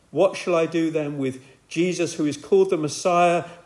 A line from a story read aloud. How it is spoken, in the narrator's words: shouted back